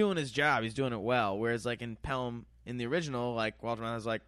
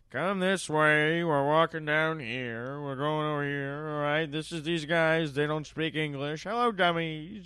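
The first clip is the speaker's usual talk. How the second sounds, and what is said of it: Imitates another person's voice. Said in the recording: “your Walter Matthau impression.”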